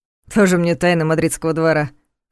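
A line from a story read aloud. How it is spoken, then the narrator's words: Snorting. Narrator (Russian): хмыкнул Ваня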